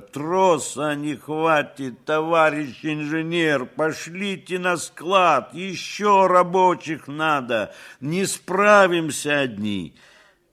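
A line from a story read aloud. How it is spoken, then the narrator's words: Shouting into ear. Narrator (Russian): Их бригадир то и дело кричал ей в ухо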